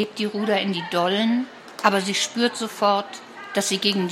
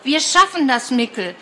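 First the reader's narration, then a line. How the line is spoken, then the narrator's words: Calling out. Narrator (German): ruft Martha verzweifeltes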